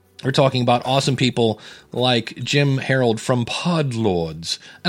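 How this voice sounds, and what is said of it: Put-on English accent. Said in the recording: “you have to say that with an English accent. It just doesn't sound right the other way.”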